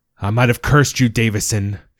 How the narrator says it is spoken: shouted Monroe

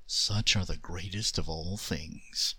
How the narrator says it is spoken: said the djinn softly

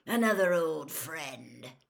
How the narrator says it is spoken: growled Moody

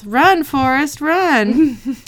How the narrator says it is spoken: Dean yells

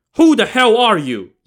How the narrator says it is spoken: Yang Zhi barked

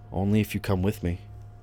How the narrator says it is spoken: I said softly

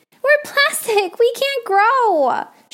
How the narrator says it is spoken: shrieked the trees while running from Fritz and his saw

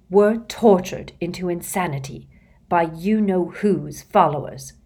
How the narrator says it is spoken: she said, turning haughtily

